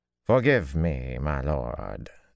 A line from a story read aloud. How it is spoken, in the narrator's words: Ty Lee drawled in careful tones